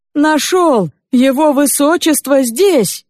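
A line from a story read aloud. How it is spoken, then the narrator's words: Shout. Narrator (Russian): Незнакомец выкрикнул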